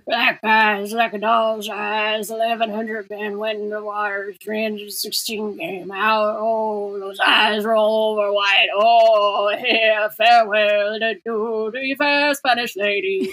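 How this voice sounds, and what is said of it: Murmured impression of a film character. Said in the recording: “I will now murmur several of the lines in my best Quint impression.”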